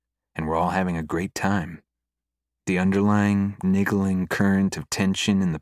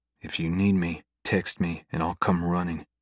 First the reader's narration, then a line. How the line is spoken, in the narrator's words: I whisper into her hair